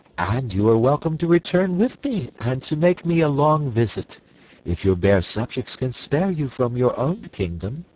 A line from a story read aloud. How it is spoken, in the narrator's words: returned Ozma sweetly